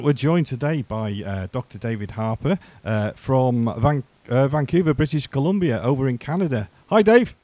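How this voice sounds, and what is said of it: Slight Scouse Liverpool accent. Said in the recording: “I haven't really got a Welsh accent... I've got a little bit of a... Beatles Scouse accent”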